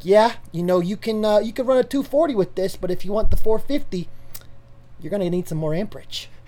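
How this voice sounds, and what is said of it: 1980s New Yorker electrician voice. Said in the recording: “I love knowing that that's how an electrician in your mind talks ... a New Yorker from the 80s coming and telling me about it ... someone from Home Alone”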